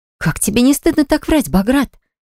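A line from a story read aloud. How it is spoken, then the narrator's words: Sudden exclamation. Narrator (Russian): Вдруг воскликнула она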